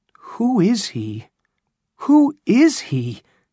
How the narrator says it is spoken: cried Mr

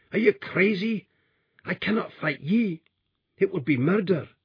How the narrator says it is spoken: he cried

